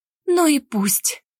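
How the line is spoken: Sobbing outburst. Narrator (Russian): вырвалась сквозь всхлипы

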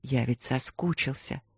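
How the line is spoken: Murmur against lips. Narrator (Russian): пробормотал он Свете в губы

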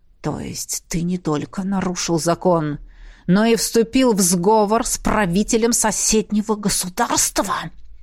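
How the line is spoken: Hiss. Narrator (Russian): прошипел Сандерс

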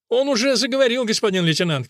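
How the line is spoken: Child shouting. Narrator (Russian): крикнул малыш

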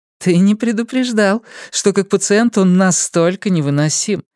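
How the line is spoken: Laughing. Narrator (Russian): рассмеялась Элиза

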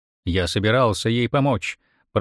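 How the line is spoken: Mutter. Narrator (Russian): пробурчал

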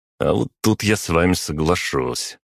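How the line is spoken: Smirking. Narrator (Russian): хмыкнул

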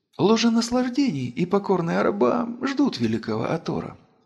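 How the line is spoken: Barely audible. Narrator (Russian): еле слышно произнесла владычица

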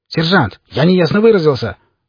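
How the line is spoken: Barked command. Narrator (Russian): рявкнул офицер

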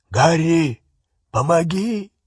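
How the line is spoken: Hoarse call from doorway. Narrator (Russian): хрипло позвал Хагрид из двери, в которой он снова застрял

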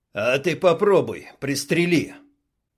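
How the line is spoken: Rougher. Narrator (Russian): Добавил более грубо

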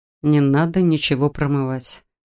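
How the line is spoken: Tired and dismissive. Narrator (Russian): устало отмахнулся Адам

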